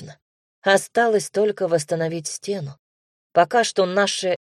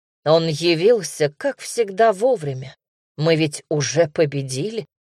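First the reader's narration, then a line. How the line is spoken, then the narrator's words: Snorting. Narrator (Russian): хмыкнул отец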